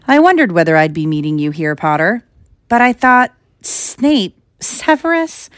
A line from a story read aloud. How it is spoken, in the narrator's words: Quirrell laughed, and it wasn't his usual quivering treble either, but cold and sharp